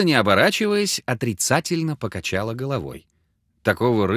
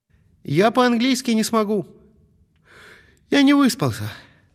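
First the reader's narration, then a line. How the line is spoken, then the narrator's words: Even sadder. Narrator (Russian): Коля Садовский отвечал Алле еще более печально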